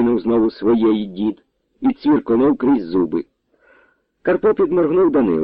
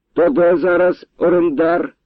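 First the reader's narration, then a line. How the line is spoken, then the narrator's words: Loud question. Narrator (Ukrainian): голосно спитав Данило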